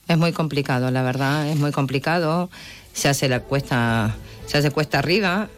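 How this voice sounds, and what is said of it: Argentine Spanish accent. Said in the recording (Spanish): “Tienes acento de Argentina ... sí”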